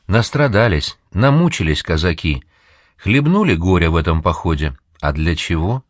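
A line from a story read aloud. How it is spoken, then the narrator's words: Quiet, musing to oneself. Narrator (Russian): И так же тихо, кажется, даже не мне, а отвечая своим мыслям, говорит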